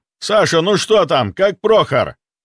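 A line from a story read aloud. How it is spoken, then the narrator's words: Shout. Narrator (Russian): выкрикнул Орлов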